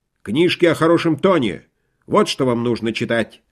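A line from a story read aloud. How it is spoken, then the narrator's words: Sharp speech. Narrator (Russian): резко сказал Джон Гопкинс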